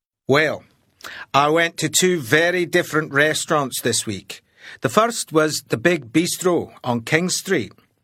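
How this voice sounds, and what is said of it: Slight foreign accent in English. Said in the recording (Chinese): “这位老外呢，略带一点点口音”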